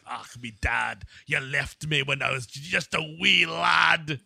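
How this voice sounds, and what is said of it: Scottish accent, Gerard Butler impression. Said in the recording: “like in Scotland ... I left you in Scotland for 5 years, so you got that accent”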